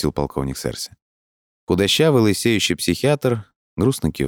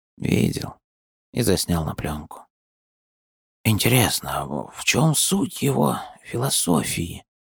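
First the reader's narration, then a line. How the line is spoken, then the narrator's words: Muttering to himself. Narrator (Russian): пробормотал себе под нос Даринг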